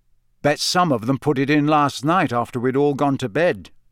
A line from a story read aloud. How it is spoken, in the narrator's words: said Harry